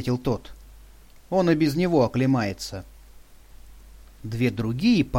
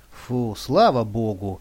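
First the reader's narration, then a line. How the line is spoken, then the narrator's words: Woman's relieved sigh. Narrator (Russian): облегченно вздохнула женщина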